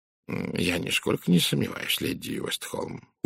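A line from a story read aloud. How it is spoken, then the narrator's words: Polite purr. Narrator (Russian): учтиво промурлыкал Пуаро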